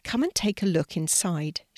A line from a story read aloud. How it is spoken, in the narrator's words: she said kindly